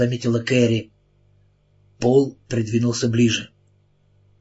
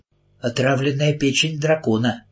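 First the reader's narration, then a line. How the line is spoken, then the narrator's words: Uncertain. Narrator (Russian): неуверенно сказала она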